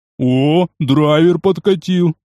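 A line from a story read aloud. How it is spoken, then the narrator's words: Pleased snort. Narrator (Russian): довольно хмыкнул жирный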